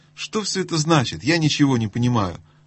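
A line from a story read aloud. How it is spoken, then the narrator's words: Exclaiming. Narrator (Russian): воскликнул Каспиан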